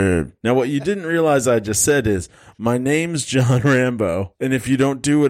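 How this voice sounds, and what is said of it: Usual voice. Nothing is said of it.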